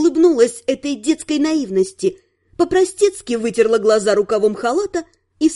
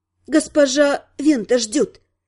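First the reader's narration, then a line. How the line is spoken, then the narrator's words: Hoarse explanation. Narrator (Russian): хрипло пояснила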